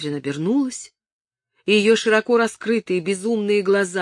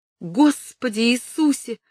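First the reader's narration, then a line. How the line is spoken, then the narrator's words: Sobbing, breathless female exclamation. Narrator (Russian): воскликнула она рыдающим голосом, чуть не задыхаясь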